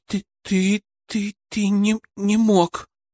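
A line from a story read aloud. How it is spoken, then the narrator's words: Stammering whisper. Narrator (Russian): Заикаясь, прошептала она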